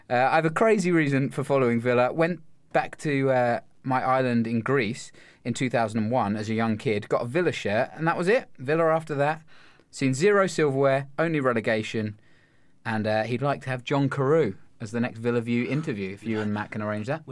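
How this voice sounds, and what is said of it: Put-on Australian accent. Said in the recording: “you've just done that in an Australian accent”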